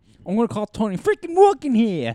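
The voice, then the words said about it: Put-on New York accent. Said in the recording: “That sounds like from New York... I don't know how to say any other name in a New York accent other than Tony.”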